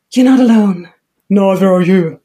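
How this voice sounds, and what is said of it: Imitates film characters' voices. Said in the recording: “impression”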